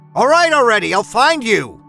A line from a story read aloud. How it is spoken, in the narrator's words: shouted